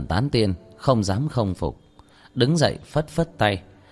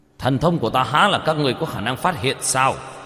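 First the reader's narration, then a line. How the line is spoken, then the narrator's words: Panicked shout. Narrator (Vietnamese): Thôi Phủ Quân trong lòng hoảng hốt, quát lên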